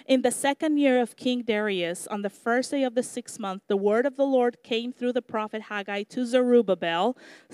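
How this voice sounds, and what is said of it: Thick foreign accent. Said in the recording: “my accent is getting thicker and thicker”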